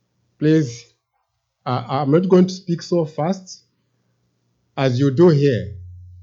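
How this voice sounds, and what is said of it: Non-American accented English. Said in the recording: “my accent may not be the same as yours”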